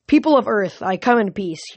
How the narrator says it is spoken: shouted

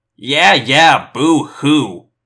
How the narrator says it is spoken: Marco sneered

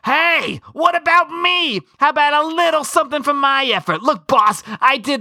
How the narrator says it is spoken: just screams

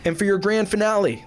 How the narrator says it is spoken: voice rose triumphantly

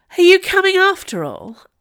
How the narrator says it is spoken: asked Ruby Red, in a haughty voice

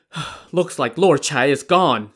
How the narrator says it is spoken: Song Jiang says he sobbed

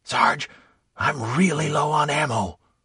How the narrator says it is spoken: someone whispered

